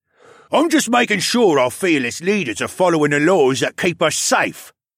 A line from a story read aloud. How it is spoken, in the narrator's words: he sneered